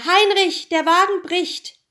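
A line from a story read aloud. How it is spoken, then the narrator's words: Calling out. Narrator (German): rief er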